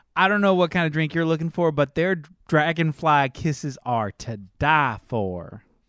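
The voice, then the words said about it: Put-on character accent. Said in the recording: “I put on some different accent”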